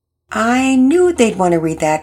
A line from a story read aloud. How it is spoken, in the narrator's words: Pearson laughed